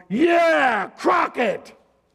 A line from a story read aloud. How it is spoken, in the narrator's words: Another boy, about 4 years of age, yelled